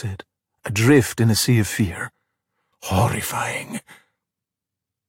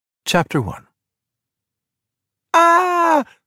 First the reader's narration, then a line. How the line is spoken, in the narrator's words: The scream